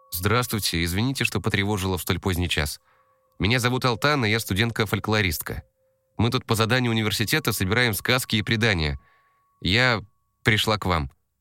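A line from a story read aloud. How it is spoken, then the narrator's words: Rapid chatter. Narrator (Russian): начала тараторить Алтана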